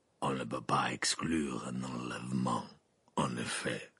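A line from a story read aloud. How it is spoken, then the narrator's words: Grumbling. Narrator (French): grogna Maugrey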